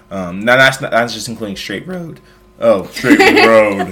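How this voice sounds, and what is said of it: Voice cracks mid-word. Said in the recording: “I did a voice crack.”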